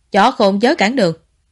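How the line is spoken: Cold voice. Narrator (Vietnamese): Ngụy Chi Viễn lạnh lùng nói

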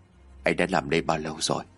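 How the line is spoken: Soft, quiet. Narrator (Vietnamese): Chí khó khẽ nói

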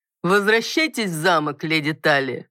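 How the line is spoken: Mocking command. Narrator (Russian): насмешливо приказала Эдна

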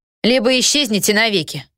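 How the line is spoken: Loud and ominous. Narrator (Russian): произнесла громко и зловеще

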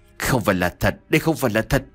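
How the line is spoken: Shaken, trembling mutter. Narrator (Vietnamese): Toàn thân của Khánh đang run lên dữ dội, miệng của hắn lẩm bẩm

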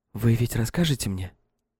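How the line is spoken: Heated whisper. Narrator (Russian): Этот жаркий шепот

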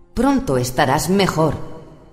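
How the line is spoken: Exclaimed. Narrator (Spanish): exclamó Caris

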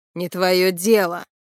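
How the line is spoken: Barking. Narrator (Russian): рявкнул Витька

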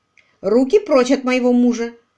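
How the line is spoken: Flirtatious exclamation. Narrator (Russian): кокетливо воскликнула Лайза

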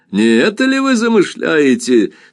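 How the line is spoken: Question with loud laughter. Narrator (Russian): спросил он с громким хохотом

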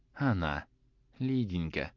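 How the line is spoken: Whispered addition. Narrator (Russian): прибавил он шепотом

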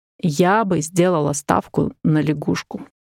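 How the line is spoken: Plain. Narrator (Russian): сказала я

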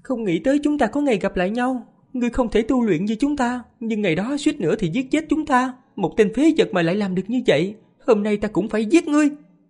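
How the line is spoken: Calm, suppressed agitation. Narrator (Vietnamese): thân thể nàng kích động tới mức run rẩy, điềm nhiên nói

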